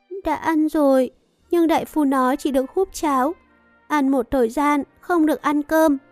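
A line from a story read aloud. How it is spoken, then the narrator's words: Tearful, whimpering. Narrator (Vietnamese): A Chiêu mếu máo nói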